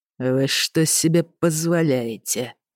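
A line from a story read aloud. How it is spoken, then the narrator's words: Through gritted teeth. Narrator (Russian): процедил ворон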